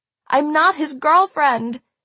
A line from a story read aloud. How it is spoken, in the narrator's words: I shouted in a panic